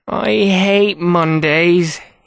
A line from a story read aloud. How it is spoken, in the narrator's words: whined to himself as he struggled